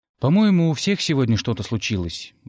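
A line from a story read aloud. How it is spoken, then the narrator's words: Sighing. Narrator (Russian): вздохнул я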